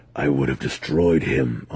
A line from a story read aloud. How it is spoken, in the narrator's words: Alton growled